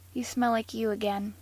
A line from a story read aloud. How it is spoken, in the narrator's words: he said softly